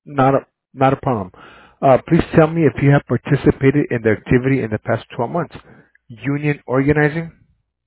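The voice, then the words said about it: Slight Hispanic accent. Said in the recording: “you're Hispanic and you got a little bit of an accent. It was hard for me to understand.”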